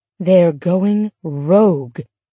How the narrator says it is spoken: Bibbs said gravely

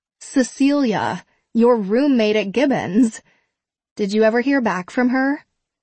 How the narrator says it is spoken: gasps

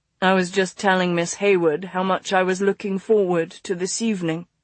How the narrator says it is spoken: he said smoothly

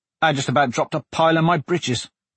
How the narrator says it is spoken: Blaze said, chortling so hard he had to sputter out the words

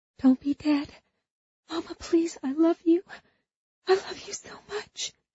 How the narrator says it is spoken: She whispered

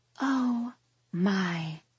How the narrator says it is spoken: Lucy gasps in a breathy tone

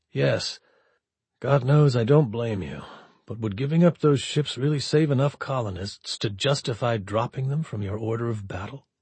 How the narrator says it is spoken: he said gently

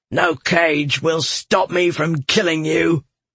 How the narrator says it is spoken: Galathon snarled

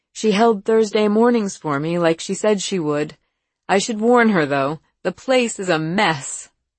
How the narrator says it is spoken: she said with a worried little laugh

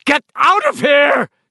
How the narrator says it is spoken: she had screamed at him

